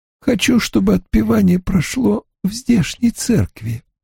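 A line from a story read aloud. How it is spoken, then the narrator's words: Barely audible. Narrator (Russian): чуть слышно выговорила она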